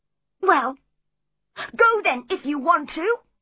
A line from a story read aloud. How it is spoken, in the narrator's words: cried